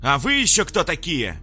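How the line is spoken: Loud growl. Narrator (Russian): Прорычала громко матушка Луна

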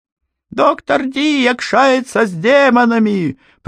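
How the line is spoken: Woman shrieking. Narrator (Russian): провизжала какая-то женщина

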